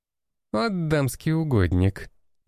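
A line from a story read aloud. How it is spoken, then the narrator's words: Giggling. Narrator (Russian): хихикала Нина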